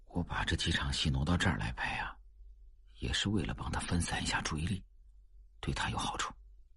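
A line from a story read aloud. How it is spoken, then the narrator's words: Quiet voice. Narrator (Chinese): 他小声说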